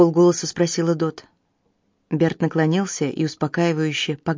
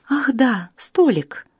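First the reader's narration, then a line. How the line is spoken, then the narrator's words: Exclamation. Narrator (Russian): воскликнула она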